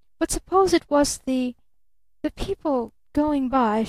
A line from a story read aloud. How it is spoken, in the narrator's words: she faltered